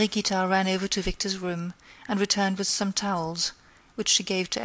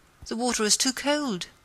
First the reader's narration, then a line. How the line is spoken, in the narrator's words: they both exclaimed